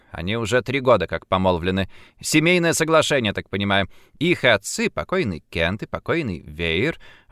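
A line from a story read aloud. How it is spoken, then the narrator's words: Polite explanation. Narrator (Russian): объяснила Перри, которая всегда отзывалась о мужчинах таким вежливым тоном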